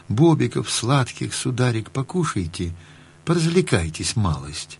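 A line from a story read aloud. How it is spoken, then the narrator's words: Tender, sing-song. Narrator (Russian): Сказала ласково, пропела словно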